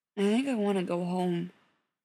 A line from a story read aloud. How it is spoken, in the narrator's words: Spencer said, his voice muffled by the side of Beckett's neck where he'd hidden his face